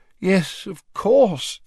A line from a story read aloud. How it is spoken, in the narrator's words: said Fudge, rubbing his eyes wearily